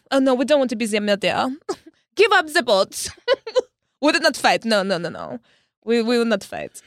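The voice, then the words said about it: Put-on French accent. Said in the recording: “That's a solid French accent. ... It's fantastic.”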